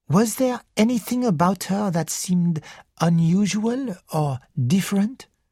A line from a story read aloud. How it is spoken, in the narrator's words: asked Poirot